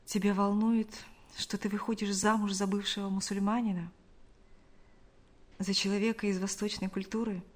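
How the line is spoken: Quiet question. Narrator (Russian): Шамиль тихо спросил

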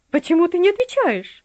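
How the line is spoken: Shrill shriek. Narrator (Russian): взвизгнула она

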